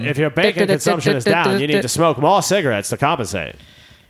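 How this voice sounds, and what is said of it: 1950s mid-Atlantic newscaster voice. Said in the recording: “The 50s newscaster, like, voice ... that mid-Atlantic accent they were into”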